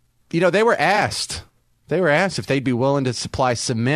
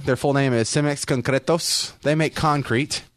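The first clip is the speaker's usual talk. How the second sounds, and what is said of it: Put-on Mexican accent. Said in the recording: “Because I said it with the Mexican accent?”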